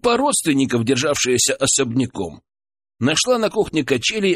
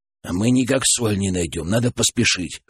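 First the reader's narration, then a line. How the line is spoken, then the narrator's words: Grumbling mutter. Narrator (Russian): буркнул Федор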